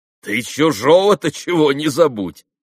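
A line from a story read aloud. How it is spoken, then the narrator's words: Joking. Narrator (Russian): сострил Митя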